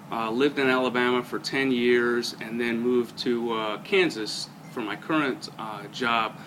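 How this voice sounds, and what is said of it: New York accent. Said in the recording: “As you may be able to tell from my accent, I grew up in New York”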